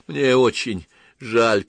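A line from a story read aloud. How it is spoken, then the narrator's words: Moan, lips trembling with cold. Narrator (Russian): простонал Петерсон дрожащими от холода губами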